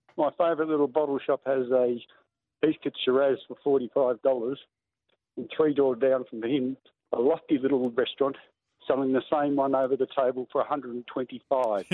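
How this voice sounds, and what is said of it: Strained, unwell-sounding voice. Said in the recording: “Sorry about my voice, but it's uh, long COVID.”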